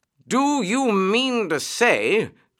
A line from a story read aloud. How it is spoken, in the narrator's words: cried the excited rat